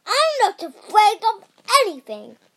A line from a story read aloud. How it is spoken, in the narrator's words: shouted the grizzly